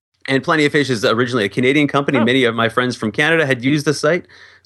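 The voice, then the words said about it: Canadian accent. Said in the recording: “as you can probably hear from my accent, I'm Canadian”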